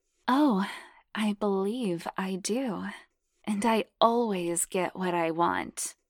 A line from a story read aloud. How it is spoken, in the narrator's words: purred hotly